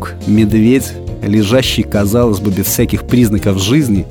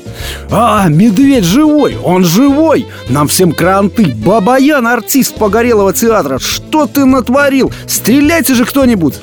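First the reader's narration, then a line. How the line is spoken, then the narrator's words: Soldier yelling. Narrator (Russian): Заорал прапорщик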